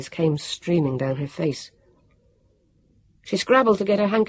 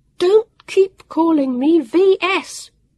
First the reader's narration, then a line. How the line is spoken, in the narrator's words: Vivian almost shrieked